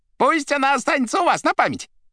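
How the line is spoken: Shouted. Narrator (Russian): прокричал Фагот

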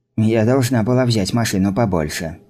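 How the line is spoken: Mutter. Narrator (Russian): пробормотала Райста

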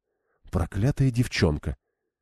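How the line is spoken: Quiet muttering. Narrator (Russian): сделала это достаточно тихо, чтобы никто не услышал

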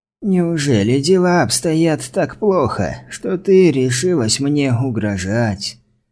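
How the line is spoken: Weak-voiced question. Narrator (Russian): слабым голосом спросил Брайан

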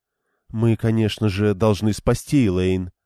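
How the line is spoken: Calm. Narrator (Russian): спокойно проговорила Дайлин

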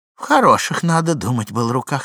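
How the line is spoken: Plain. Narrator (Russian): сказала Муся

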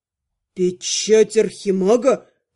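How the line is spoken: Confused mutter. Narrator (Russian): растерянно пробормотал мужчина

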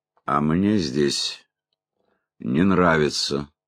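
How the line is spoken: Calm. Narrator (Russian): спокойно сказал Лонли Локли

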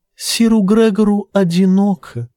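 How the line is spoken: Sweet little voice. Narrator (Russian): добавила Тиена сладким септинским голоском

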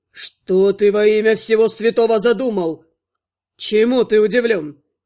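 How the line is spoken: Smirking. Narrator (Russian): усмехнулся некромант

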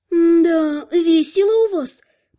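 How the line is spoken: Drawling. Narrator (Russian): протянула Ариса

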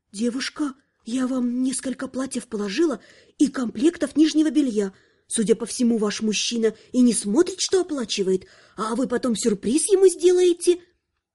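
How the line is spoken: Saleswoman's whisper. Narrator (Russian): шепот продавщицы

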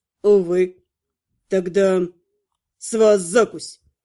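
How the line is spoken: Smirking snort. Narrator (Russian): Хмыкнул практичный магистр

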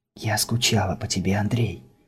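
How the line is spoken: Continued whispering. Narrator (Russian): продолжала шептать Крисла

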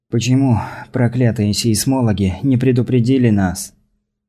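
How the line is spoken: Sigh. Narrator (Russian): Хирос вздохнул

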